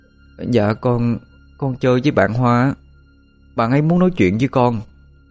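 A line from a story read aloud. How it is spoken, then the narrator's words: Soft reply. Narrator (Vietnamese): Bin khẽ trả lời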